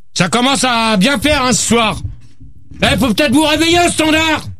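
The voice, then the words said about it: Shouting angrily. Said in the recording (French): “arrête de crier, toi! ... Ne gueule pas tout de suite.”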